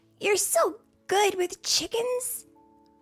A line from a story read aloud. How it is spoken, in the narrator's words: Ruth chirped